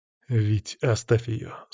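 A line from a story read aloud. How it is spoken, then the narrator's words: Calm. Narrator (Russian): спокойно сказал я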